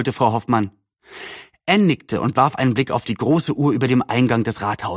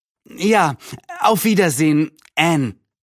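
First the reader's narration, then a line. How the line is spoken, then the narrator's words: Neighbor calling out. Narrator (German): rief die Nachbarin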